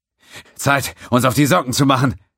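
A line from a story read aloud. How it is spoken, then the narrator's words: Panting with exertion. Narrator (German): sagte er keuchend vor Anstrengung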